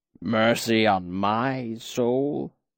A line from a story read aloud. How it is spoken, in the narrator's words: He gave a weak croak that might have been a chuckle on a better day